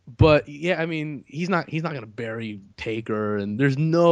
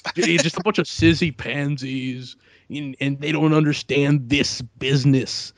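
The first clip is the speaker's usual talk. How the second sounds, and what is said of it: Poor imitation of another person's voice. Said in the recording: “my terrible Triple H impression”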